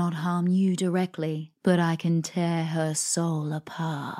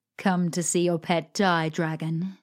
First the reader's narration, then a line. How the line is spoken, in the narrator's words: she laughed